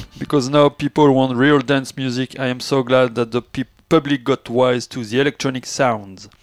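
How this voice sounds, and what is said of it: French-accented English. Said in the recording (French): “Pardon pour mon accent.”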